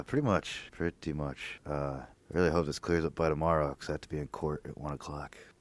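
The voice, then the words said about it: Voice not at full strength. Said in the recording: “my voice is not quite 100% today... It was even worse yesterday”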